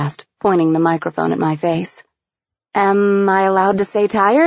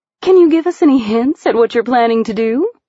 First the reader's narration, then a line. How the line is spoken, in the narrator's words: She asked eagerly